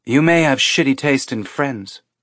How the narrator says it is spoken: she said

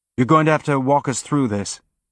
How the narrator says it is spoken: Holden said, quickly

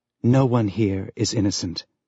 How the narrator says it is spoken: Julie whispered in the back of his mind

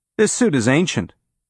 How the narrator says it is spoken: Hillman said

